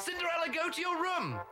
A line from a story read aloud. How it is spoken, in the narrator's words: They shouted at her